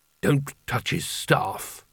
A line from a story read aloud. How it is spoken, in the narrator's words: muttered Carding